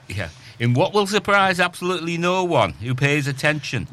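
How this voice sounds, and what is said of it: Put-on Yorkshire accent. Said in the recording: “Why are you speaking in Yorkshire accent from Birmingham?”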